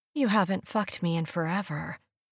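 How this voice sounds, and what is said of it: Needy, pleading tone. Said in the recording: “My voice is needy.”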